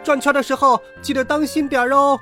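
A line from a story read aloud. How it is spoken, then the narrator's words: Yelling. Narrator (Chinese): 阿梅在大呼小叫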